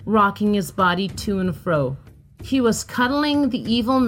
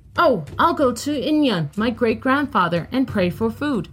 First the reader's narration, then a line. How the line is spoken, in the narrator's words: he exclaimed